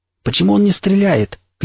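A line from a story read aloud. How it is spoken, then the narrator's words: Shouted. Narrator (Russian): крикнул я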